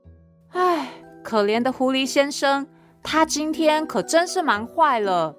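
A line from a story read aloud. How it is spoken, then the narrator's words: Sighing pig. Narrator (Chinese): 小猪叹了口气说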